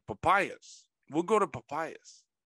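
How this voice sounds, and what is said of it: Imitates a heavy accent. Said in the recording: “with the heavy accent”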